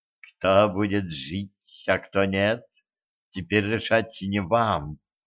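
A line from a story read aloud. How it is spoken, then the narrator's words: Calm reply. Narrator (Russian): спокойно ответила Зейнаб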